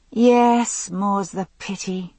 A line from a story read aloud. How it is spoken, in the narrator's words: I said, sighing